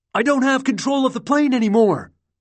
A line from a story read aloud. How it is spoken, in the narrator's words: Bonin shouted